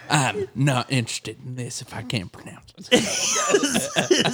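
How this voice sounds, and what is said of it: Imitates his father's voice. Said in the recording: “your dad voice ... this is my impression of my dad”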